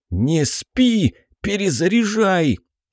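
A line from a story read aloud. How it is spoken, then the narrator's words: Hoarse shout. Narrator (Russian): сиплым голосом крикнул я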